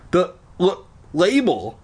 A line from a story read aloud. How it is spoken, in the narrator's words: I stammered